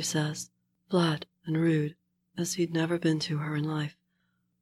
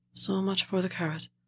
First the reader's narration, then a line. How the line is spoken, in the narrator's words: Ma says sadly, fading out slow